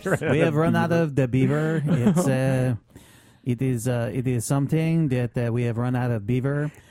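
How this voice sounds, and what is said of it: Put-on French-Canadian accent. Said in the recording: “Quebecian accent? ... It's a French-Canadian accent.”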